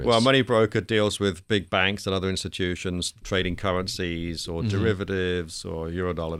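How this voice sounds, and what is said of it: British speaker with Australian-sounding accent. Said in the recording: “You're originally from the UK ... So you're from London. Where did the Australian accent come from?”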